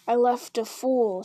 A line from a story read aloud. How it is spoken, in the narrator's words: snarled Grishnak